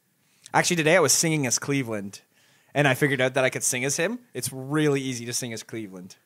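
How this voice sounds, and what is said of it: Usual voice. Nothing is said of it.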